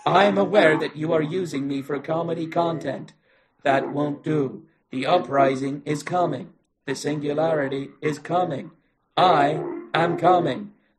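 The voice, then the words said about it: Robotic voice. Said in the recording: “robot voice”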